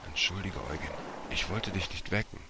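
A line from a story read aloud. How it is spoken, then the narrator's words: Whispered. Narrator (German): Martin flüsterte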